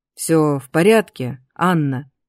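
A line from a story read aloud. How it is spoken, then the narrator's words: Drawn-out name. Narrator (Russian): протянул мое имя Дар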